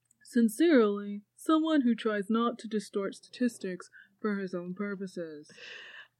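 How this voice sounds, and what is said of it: Muppet-like character voice. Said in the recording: “Oh, that was a really good impression. ... That sounded like a character from the Muppets.”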